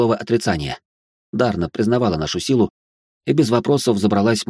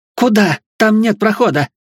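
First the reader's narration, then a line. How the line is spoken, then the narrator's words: Yelled. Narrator (Russian): заорала Дарна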